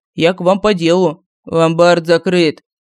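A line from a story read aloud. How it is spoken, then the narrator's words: Bored flat voice. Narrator (Russian): скучным голосом сообщил безвозрастный оценщик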